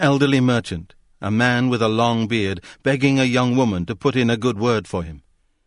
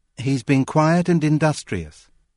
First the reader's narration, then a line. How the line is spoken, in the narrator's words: nodded gravely, said